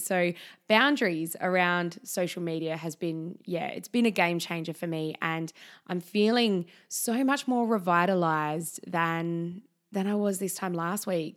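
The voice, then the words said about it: Slightly croaky, strained voice. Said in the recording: “my voice is maybe still a little bit croaky ... for nearly 2 weeks, I had almost lost my voice, like not totally, but it was a real strain to talk”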